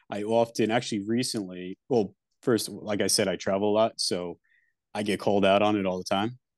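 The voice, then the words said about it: Thick Long Island accent. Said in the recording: “Got a pretty thick Long Island accent, if you couldn't tell.”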